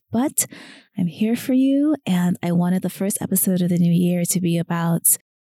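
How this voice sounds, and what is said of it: Voice weakened from illness. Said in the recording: “I'm still recovering, so my voice is still not at 100%”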